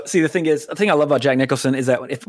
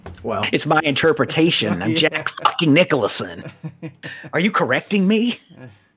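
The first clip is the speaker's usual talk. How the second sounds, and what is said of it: Imitates another person's voice, poorly. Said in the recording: “whenever I try to impersonate him, it's just I sound like Christian Slater... It's like a bad impersonation of Christian Slater”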